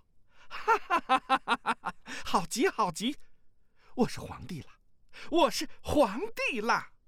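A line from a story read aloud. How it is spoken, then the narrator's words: Elated, laughing shout. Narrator (Chinese): 赵旭大喜，哈哈大笑，叫道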